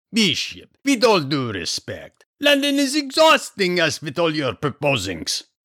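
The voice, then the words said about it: Heavy foreign accent. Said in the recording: “Except for accent, of course. Ignore accent.”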